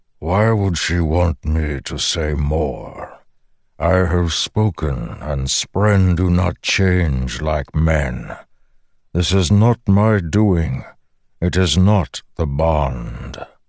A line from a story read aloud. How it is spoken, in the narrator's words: The Stormfather rumbled